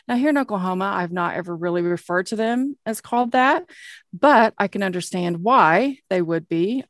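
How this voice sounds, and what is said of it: Oklahoma accent. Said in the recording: “my Oki accent probably just totally botched that up”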